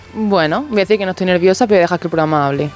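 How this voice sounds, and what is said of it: Almería Spanish accent. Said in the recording (Spanish): “te ha salido tu acento de Almería”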